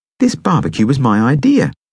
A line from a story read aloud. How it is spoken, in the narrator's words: I say indignantly